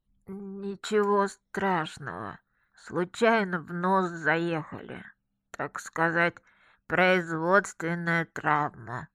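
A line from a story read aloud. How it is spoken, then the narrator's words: Nasal voice. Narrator (Russian): прогнусавила я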